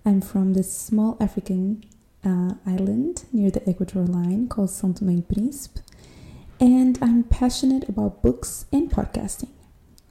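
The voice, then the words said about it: American-sounding English accent. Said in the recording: “I am not an American girl, even though I can understand my accent will imply so”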